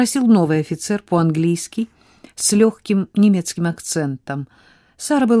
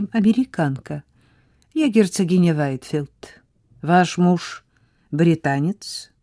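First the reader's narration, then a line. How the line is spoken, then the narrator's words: Calm question. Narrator (Russian): спокойно спросил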